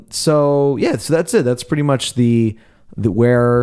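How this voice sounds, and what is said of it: Usual voice. Nothing is said of it.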